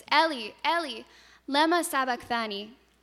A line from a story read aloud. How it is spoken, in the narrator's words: Jesus cried out in a loud voice